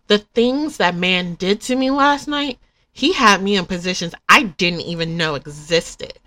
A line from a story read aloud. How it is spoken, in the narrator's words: Gemma exclaimed sultrily